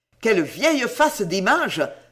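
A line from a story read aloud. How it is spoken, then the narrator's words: Indignant exclamation. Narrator (French): s'écria Sam, indigné de cette perte de temps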